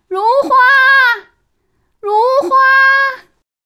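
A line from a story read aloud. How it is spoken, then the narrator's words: Calling out. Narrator (Chinese): 阿楚分头叫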